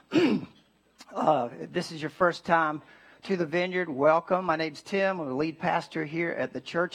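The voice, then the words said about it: Slightly raspy voice. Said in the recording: “Throat's a little raspy”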